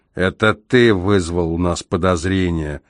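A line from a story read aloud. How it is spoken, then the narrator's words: Policeman's growl. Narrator (Russian): прорычал полицейский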